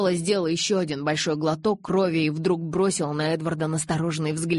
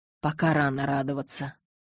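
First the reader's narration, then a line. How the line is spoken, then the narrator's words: Mutter. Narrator (Russian): пробормотал Карлайл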